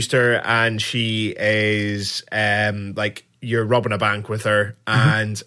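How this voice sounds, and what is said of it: Usual voice. Nothing is said of it.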